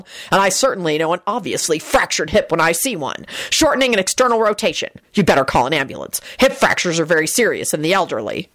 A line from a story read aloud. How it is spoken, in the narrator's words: Angel snarled